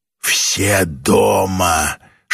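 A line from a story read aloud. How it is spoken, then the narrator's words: Whisper. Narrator (Russian): шепнул один из водопроводчиков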